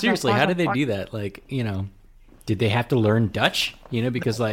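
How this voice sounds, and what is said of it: Usual voice. Nothing is said of it.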